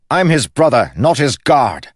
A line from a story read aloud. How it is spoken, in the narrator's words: snapped Kel